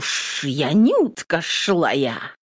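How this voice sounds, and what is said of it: Hissing, mocking imitation. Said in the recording (Russian): “зашипела, передразнивая Нютку”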